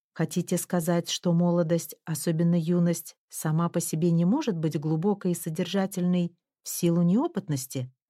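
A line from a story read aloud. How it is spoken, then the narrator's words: Plain. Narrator (Russian): сказала я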